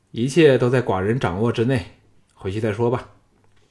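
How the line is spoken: Calm, faint smile. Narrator (Chinese): 小盘的嘴角露出了一丝高深莫测的笑意，淡淡的说

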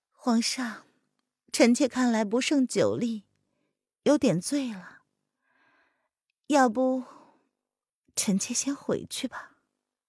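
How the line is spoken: Gentle soft question. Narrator (Chinese): 他柔声的向叶轩寒问

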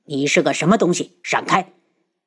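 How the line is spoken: Cold voice. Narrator (Chinese): 无双冷声

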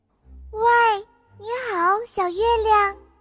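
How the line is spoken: Calling out. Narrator (Chinese): 呼叫小月亮

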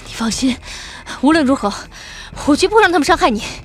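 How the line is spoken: Breathless panting. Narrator (Chinese): 他是斯文人，从小到大很少这样没命的奔跑，喘了又喘，说

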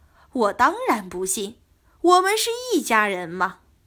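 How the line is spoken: Laughing. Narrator (Chinese): 尔朱荣笑道

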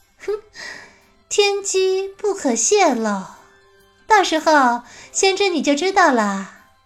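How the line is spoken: Mysterious laugh. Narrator (Chinese): 白鸡神秘的笑道

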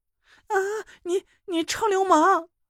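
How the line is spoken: Shrill falsetto scream. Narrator (Chinese): 捏着嗓子尖叫起来

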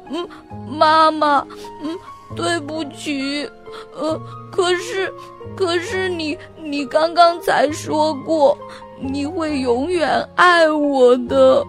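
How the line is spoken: Crying. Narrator (Chinese): 阿丽哭起来了，她说

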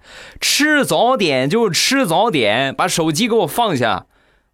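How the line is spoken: Loud angry roar. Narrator (Chinese): 突然，老板娘大声的咆哮

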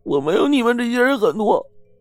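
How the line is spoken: Crying. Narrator (Chinese): 哭着说

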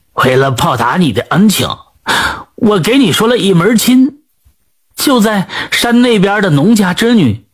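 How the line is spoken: Smiling. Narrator (Chinese): 她笑着对龚学鹤说

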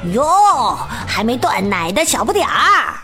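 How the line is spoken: Loud taunting shout. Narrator (Chinese): 雷奥和卢卡 冲着吉姆大声喊

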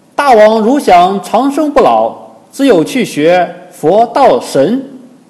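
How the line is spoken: Loud shouting ape. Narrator (Chinese): 有个通背猿猴高叫

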